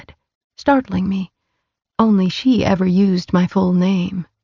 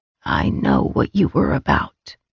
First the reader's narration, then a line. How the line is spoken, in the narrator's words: she rasped